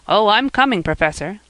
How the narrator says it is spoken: laughed Jasper

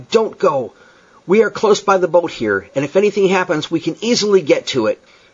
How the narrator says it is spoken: I cried

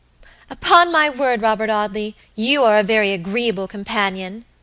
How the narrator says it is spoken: exclaimed at length her rather limited stock of patience quite exhausted

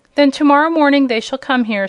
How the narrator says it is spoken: said Princess Ozma

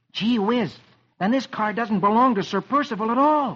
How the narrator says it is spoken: Rusty exclaims

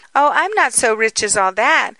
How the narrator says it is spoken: cried

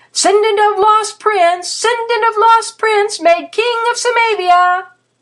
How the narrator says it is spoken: he bolted, shouting

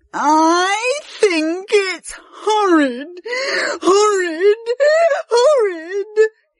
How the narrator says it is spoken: he sobbed

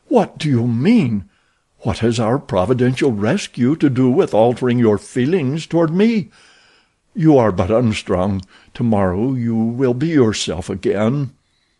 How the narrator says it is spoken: he cried

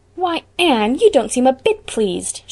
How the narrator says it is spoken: she exclaimed

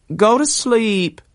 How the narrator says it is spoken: cried his mother faintly

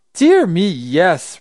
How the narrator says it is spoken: Raggedy Andy laughed

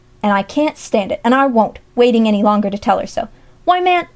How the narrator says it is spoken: he turned savagely now on Jasper

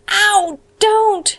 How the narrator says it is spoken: shrieked poor Anne

